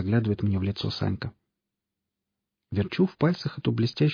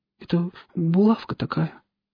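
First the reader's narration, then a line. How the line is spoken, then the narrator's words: Trembling frightened small voice. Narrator (Russian): дрожащим, испуганным голоском говорит Саня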